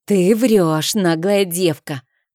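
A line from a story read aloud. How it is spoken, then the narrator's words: Indignant, through gritted teeth. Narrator (Russian): процедила Мадлен в негодовании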